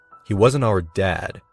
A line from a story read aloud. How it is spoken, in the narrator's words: corrected her coldly